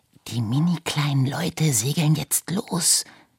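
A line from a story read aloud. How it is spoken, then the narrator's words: Hissed. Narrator (German): zischte er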